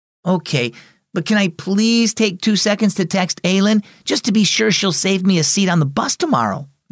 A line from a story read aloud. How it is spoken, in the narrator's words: Maisie begged